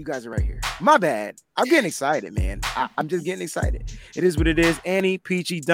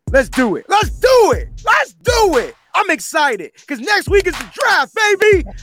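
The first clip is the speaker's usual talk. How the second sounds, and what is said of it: Excited yelling. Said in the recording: “Why am I yelling?”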